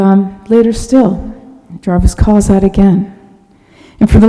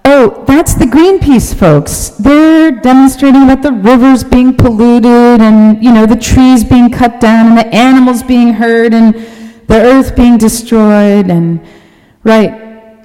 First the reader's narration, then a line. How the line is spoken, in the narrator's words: someone yells back